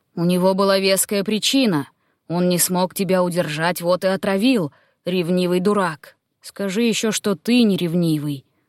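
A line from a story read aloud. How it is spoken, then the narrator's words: Grumble. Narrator (Russian): пробурчал Актеон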